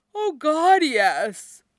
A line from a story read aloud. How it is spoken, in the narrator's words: says, yawning